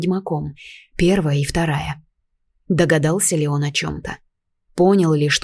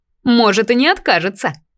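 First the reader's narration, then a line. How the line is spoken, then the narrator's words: Wry snort. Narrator (Russian): хмыкнула Ресинта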